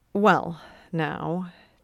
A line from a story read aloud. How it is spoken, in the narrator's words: Ted says uneasily